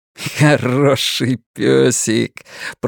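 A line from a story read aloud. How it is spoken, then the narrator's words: Said then laughing. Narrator (Russian): произнес Флэк и рассмеялся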